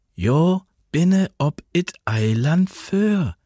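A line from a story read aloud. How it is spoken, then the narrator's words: Slow, patient, as to child. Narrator (German): sagte sie, langsam und geduldig, als spräche sie zu einem Kind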